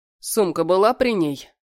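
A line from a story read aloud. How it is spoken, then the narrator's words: Stern question. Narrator (Russian): Спрашиваю строго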